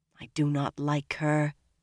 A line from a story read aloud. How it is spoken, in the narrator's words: Egwene muttered, low enough to make sure the Aes Sedai could not hear